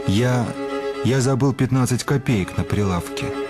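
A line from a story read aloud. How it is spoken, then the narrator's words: Muttering. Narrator (Russian): бормочет аптекарь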